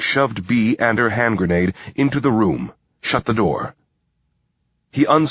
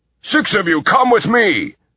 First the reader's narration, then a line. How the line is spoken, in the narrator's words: shouted a man